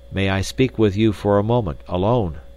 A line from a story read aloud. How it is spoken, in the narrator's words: he asked